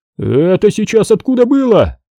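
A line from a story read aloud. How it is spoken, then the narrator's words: Exclaimed. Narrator (Russian): воскликнул Тре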